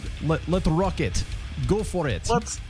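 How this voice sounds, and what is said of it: Poor put-on Russian accent. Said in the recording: “Russian accent ... that was a terrible accent ... That sounds nothing like Russian ... Horrible accent”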